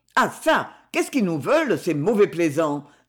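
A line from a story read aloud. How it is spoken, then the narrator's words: Exclaiming. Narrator (French): s'exclama-t-il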